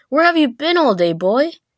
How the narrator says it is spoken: his parents yelled at him, saying

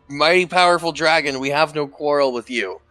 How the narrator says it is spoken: I yell in Draconic

